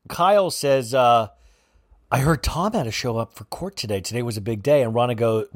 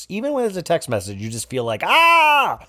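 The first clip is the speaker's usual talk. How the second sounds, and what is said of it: Loud screaming. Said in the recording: “I guess I'm screaming too loud. Yeah, I do realize that I'm screaming as loud as Rinna screams”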